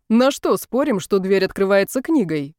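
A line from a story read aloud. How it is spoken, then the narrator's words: Mocking. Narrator (Russian): насмешливо предположил Михаил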